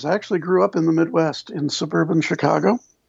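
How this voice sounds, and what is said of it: Southern folksy Kentucky accent. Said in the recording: “the southern folksy accent of your voice ... It's that Kentucky accent.”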